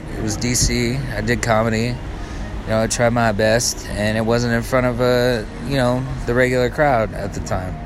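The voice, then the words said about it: Put-on East Coast accent. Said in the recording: “I pick up the East Coast accent ... I talk like this now”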